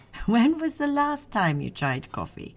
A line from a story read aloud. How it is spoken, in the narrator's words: Vivian chuckled